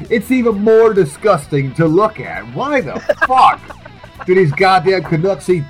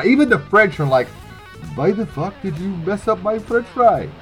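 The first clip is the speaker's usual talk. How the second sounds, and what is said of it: Bad French accent sounding Russian. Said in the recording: “You definitely need a better French accent. What the fuck was that?... It was very Russian... that was horrible French accent... It sounded like somebody just tickled you and you didn't know how to laugh”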